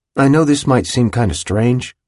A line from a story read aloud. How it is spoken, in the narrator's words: he'd said